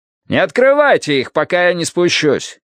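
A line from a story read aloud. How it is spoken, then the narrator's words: Shout. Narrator (Russian): крикнул он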